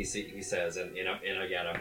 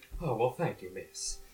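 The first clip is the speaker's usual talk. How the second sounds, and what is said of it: Mock Southern gentleman accent. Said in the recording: “a mock gentleman accent”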